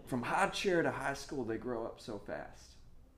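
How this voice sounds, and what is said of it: Put-on country accent. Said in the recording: “they always have this country accent”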